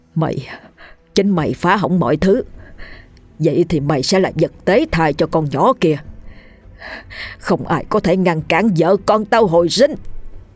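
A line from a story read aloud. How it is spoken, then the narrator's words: Hissed spitefully through teeth. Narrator (Vietnamese): Hắn ta nhìn Ngân một cách hằn học mà rít qua kẻ rằng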